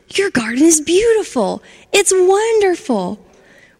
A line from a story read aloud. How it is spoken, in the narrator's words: he shouted